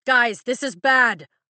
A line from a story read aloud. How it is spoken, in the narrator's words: Liam shouts